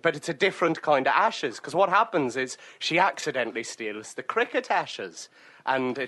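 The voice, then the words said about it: Put-on Scottish accent, drifting to Edinburgh. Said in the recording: “You are veering to Edinburgh right now with that accent ... a consistently a Scottish accent”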